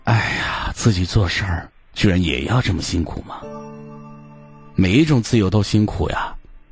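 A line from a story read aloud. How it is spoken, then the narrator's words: Sighing exclamation. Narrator (Chinese): 我忍不住感叹一声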